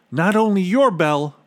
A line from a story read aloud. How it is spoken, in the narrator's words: Bartholomew cried